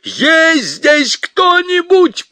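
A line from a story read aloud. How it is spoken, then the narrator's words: Shouted. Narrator (Russian): прокричал он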